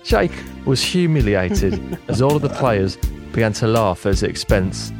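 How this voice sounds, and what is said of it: Put-on Nottingham accent. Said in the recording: “my my Nottingham impression”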